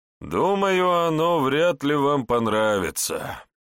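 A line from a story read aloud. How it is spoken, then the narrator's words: Sighing. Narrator (Russian): вздохнул гус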